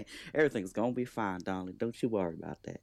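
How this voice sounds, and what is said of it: Put-on Southern accent. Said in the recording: “In my South accent”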